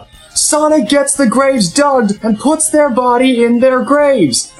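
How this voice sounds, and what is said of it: Billy Mays infomercial pitchman impression. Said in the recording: “Billy Mays? ... Billy Mays ... I don't know what I'm doing Billy Mays or John Madden again.”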